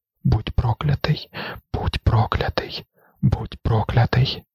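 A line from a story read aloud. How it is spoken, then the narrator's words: Whisper. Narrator (Ukrainian): прошепотіла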